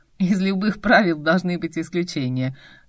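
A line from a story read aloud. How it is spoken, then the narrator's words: Laughing, cheerful. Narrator (Russian): засмеялся, с весельем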